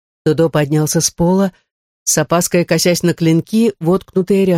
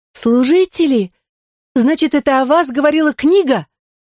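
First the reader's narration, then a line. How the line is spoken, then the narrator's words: Exclaimed. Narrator (Russian): воскликнула Фьора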